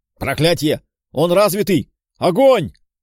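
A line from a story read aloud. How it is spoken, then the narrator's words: Roaring command. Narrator (Russian): взревел командир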